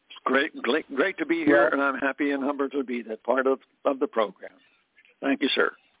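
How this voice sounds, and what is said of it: Hoarse voice. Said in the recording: “your voice is hoarse”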